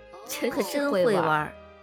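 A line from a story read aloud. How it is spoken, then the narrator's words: Teasing. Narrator (Chinese): 冲着张思年调侃一笑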